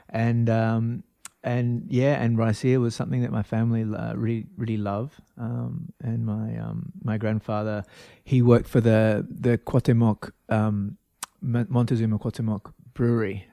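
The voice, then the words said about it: Australian accent. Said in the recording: “I'm from Australia, so I could probably pick up my accent.”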